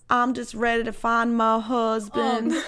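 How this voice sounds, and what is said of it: Poorly done Southern girl accent. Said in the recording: “a blonde Southern girl ... I did a bad job. I'm really bad at accents”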